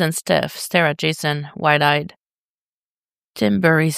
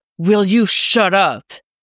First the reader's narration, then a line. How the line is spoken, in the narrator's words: Jason snaps